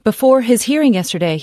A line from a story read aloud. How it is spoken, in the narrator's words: he shouted to reporters